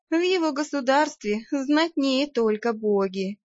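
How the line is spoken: Sighing. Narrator (Russian): вздохнула я

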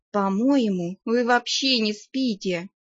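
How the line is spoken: Sighing. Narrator (Russian): вздохнула я

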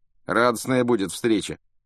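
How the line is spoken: Scoffing snort. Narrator (Russian): хмыкнул Рон

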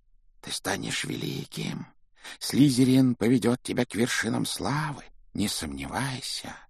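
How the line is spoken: Whisper in the ear. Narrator (Russian): Она шептала на ухо

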